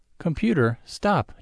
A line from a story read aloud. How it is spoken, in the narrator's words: Jot cries